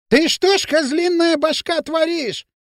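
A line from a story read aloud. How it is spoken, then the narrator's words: Shrill shout. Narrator (Russian): визгливо закричал Дутов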